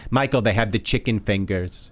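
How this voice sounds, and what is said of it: Imitates another person's voice, accent. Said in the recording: “my mother doing that kind of accent”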